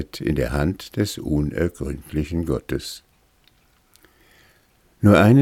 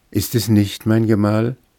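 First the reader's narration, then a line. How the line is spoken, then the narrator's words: Countess calling out. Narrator (German): rief die Gräfin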